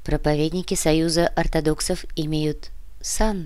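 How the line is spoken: Quiet. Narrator (Russian): тихо произнесла Яна

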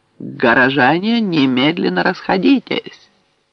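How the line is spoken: Ringing voice announcement. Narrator (Russian): сержант звонким голосом объявил

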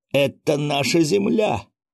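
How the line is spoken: Hesitant, through gritted teeth, young man. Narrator (Russian): уже не так уверенно процедил молодой китаец

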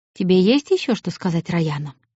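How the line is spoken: Quiet question. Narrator (Russian): негромко спросил принц

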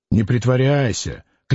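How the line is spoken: Failed stern, smiling. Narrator (Russian): Клим хотел сказать это слово строго, но не сумел и даже улыбнулся

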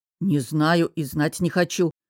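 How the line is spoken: Growling. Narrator (Russian): прорычал Костя

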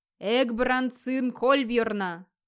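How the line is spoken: Booming voice from behind. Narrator (Russian): прогудело позади

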